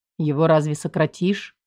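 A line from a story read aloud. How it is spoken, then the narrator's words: Muttered. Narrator (Russian): Пробормотал Мир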